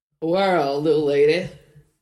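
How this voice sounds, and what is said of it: Elvis-style impression voice. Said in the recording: “Can you do an Elvis voice?”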